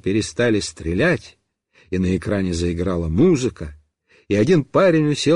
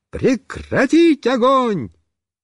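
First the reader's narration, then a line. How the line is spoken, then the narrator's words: Shout. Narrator (Russian): я крикнул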